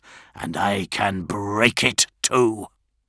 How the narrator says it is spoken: hissed Ferrus

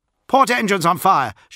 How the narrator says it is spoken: shouted the pilot

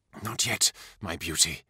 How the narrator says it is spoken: whispered

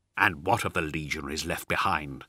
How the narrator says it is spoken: snarled Raldoron

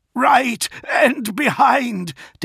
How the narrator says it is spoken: Dantioch shouted

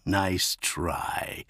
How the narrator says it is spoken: he replied with a dark chuckle

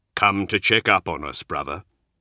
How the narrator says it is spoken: Cole growled good-naturedly

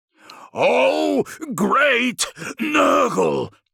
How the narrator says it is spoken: intoned the thaumaturge over the droning of his coven

